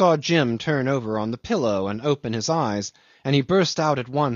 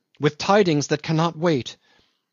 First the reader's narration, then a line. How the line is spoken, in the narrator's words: he cried at the door